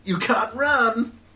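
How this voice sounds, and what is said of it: Bad Sonic character voice impression. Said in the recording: “really bad Sonic impression”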